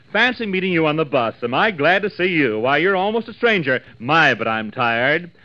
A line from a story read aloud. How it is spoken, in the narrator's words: she gushed loudly